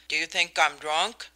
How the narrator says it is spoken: he said sharply

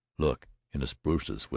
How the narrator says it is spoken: whispered Jones

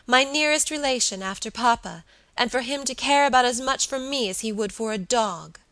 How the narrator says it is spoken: she cried passionately

